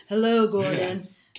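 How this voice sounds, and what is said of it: Creepy voice. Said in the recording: “creepy voice.”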